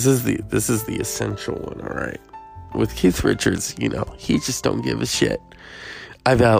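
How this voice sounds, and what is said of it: Usual voice. Nothing is said of it.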